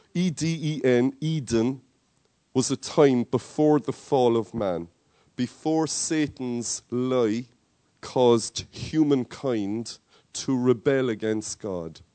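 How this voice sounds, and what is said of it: Irish Cork accent. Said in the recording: “my Cork accent is kicking through”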